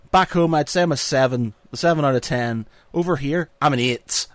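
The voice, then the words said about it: Northern Irish accent. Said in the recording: “I get a bonus point for having the accent ... I'm back in Northern Ireland ... We all speak like this.”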